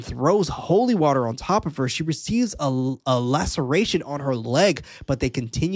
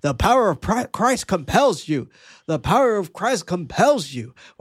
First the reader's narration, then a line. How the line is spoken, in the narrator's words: They shout in unison